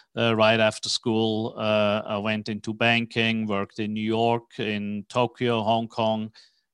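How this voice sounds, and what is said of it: Swiss accent. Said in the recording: “As you can hear from my accent, I'm not originally from Texas ... I was born in Switzerland.”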